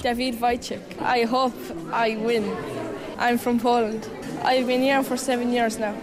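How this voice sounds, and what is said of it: Tipperary Irish accent, slight Polish. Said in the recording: “a mixture of a Tipperary and a slight Polish accent as well ... What a great accent.”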